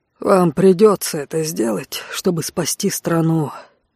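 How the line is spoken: Sighing. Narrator (Russian): вздохнул маркиз

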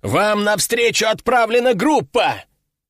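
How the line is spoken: Shouted. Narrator (Russian): прокричал капитан

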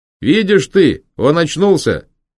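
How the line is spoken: Very loud. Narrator (Russian): Очень громко заговорил возница

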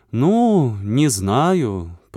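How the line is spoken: Drawling. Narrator (Russian): протянула Варька

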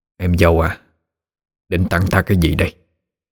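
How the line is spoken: Soft sweet question. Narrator (Vietnamese): hỏi giọng nhẹ nhàng, chẳng hiểu sao có cả nét ngọt ngào

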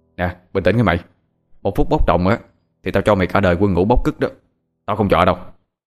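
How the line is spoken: Stern low warning. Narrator (Vietnamese): Thằng Hoàng cũng sợ, gằn giọng nói

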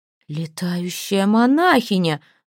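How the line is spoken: Howling. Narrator (Russian): взвыла она

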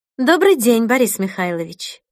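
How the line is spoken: Calm tone. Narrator (Russian): произнесла спокойным тоном

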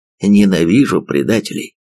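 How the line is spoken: Growling. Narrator (Russian): рычал он

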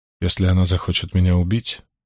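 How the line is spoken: Flat colorless voice. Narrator (Russian): бесцветным голосом заявила она

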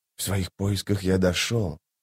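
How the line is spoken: Quiet and measured. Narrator (Russian): тихо и размеренно проговорил Радфеннер

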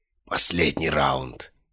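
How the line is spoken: Killer's hoarse rasp. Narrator (Russian): прохрипел убийца

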